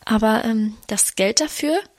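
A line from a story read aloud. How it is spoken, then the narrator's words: Stammering. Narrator (German): stammelte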